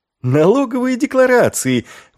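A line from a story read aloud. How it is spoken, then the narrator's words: Exclamation. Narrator (Russian): воскликнул он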